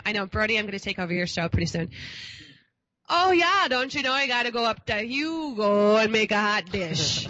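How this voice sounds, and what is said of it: Put-on Minnesota accent. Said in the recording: “Why don't we bust out the Minnesota ... That was funny. ... That was really good.”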